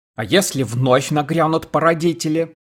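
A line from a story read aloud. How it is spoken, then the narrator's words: Shouted after them. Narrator (Russian): крикнул Джосс им вслед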